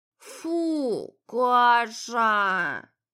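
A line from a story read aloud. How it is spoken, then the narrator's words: Sleepy grumble. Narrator (Russian): Не открывая глаза, проворчал Витер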